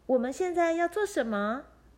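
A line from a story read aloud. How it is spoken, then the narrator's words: Frightened crying out. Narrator (Chinese): 爱丽丝用双臂抱住自己，叫着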